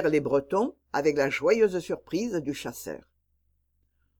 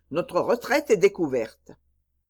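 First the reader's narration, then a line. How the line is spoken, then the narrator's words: Shouted. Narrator (French): cria l'évêque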